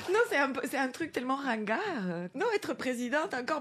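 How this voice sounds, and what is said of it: Speaks French with a foreign accent. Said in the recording (French): “mon accent”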